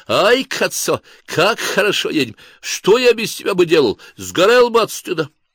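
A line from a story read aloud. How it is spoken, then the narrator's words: Shouting in Italian. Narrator (Russian): Командир экипажа, лейтенант Хряков, кричал по-итальянски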